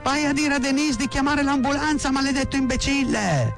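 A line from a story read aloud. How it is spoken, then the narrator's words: Frantic screaming. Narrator (Italian): urlava come una matta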